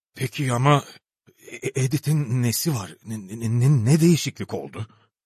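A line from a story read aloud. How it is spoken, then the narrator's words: Stammering. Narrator (Turkish): diye kekeledi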